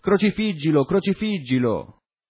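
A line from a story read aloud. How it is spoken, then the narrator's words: Crowd shouting. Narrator (Italian): essi gridavano dicendo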